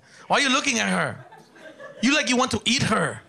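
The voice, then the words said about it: Imitated Mexican woman's accent. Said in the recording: “my wife's from Mexico, she talks with an accent.”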